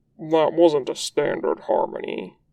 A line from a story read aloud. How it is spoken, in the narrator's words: says, in the kind of grumble that means he was actually impressed